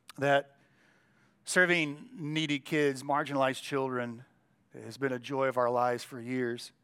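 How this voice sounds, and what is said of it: Strained, fading voice. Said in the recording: “my voice is leaving me a little bit”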